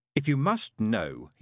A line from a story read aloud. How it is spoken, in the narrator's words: he said, a trifle testily